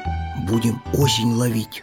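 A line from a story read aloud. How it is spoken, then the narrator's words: Whispering hedgehog. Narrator (Russian): шепотом сказал ежик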